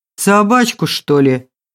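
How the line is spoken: Realizing guess, tall stranger. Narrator (Russian): догадался долговязый незнакомец

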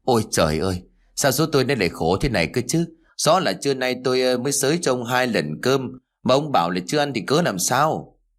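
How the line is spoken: Old woman sighing lament. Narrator (Vietnamese): Bà Bưởi thở dài

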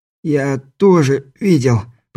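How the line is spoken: Groan. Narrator (Russian): простонал Каспер

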